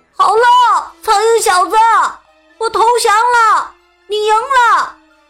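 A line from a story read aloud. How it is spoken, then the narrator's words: Calling out. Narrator (Chinese): 嗡嗡呼喊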